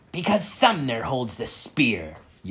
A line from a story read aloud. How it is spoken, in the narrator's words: Ulysses snapped